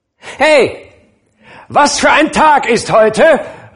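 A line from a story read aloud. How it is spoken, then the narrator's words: Calling down. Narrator (German): rief Scrooge zu einem Jungen im Sonntagsstaat hinunter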